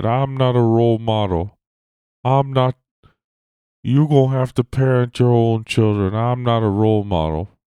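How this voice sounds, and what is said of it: Imitates another person's voice. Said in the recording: “my Charles Barkley impression there. Wasn't too bad.”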